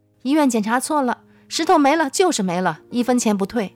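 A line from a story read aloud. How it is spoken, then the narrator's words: Angry, embarrassed shouting. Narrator (Chinese): 这位气功师恼羞成怒，大声嚷嚷说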